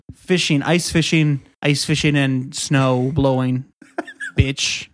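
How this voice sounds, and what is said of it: Put-on Minnesota accent. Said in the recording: “Do your Minnesota accent. ... Very good.”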